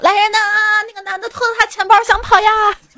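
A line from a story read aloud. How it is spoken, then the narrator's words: Shouting. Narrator (Chinese): 我帮你喊了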